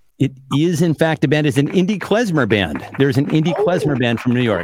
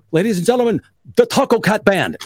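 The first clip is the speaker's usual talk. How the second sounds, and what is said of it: Poor Bernie Sanders impression. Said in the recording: “just my abysmal Bernie Sanders impression”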